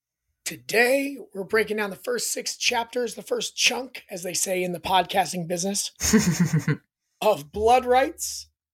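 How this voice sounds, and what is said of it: Hoarse, worn-out voice. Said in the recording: “my voice is completely shot from the weekend. I sound better than I did a day ago.”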